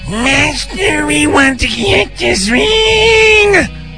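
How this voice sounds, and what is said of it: Gollum character voice. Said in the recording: “my Gollum impersonation”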